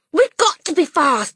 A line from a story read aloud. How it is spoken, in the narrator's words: Matilda cried